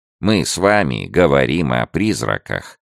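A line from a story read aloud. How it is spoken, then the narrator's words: Calm. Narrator (Russian): спокойно сказал Ипын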